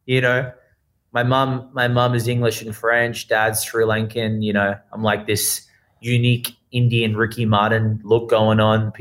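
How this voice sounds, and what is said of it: Australian accent. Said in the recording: “it's an Australian accent ... Is it London? Is it South Africa? Is it Kiwi? Dude, it's Australian.”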